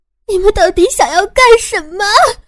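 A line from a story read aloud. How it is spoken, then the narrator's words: Crying. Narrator (Chinese): 我哭了起来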